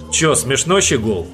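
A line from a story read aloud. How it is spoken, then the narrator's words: Rude blurt. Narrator (Russian): Грубо выпалил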